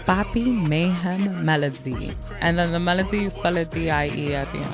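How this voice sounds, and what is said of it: Puerto Rican accent. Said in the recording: “Good accent all of a sudden? ... Puerto Rican came out, right?”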